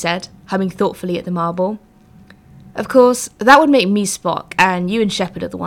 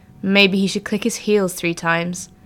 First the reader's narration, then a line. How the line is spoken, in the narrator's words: Shepard said from the corner in an unfriendly tone of voice